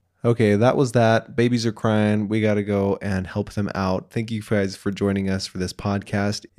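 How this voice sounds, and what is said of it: Usual voice. Nothing is said of it.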